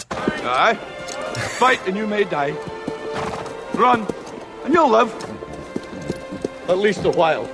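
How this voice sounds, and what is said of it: Scottish accent. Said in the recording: “rate this Scottish accent”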